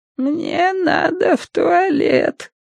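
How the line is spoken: Quavering woman's voice. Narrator (Russian): сказала женщина дребезжащим голосом

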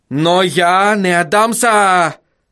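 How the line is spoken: Shouting. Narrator (Russian): закричал он

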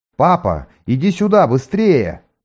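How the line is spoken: Very loud shout. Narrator (Russian): крикнул он так громко

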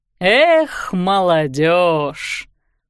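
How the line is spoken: Reproachful drawl. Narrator (Russian): укоризненно протянул Хьюго

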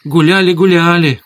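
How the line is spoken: Joyful confirmation. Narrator (Russian): радостно подтвердила теща

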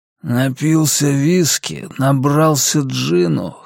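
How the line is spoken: Hoarse wheeze. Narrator (Russian): хрипел Дэйв

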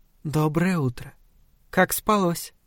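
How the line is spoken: Purring. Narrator (Russian): промурлыкала Соня

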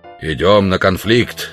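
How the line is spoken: Loud announcement. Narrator (Russian): громко известил Грубин

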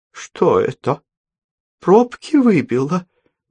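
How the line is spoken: Uncertain question. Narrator (Russian): неуверенно спросила Елизавета Ивановна

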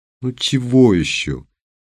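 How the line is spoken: Sleepy drawl. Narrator (Russian): сонно протянула она

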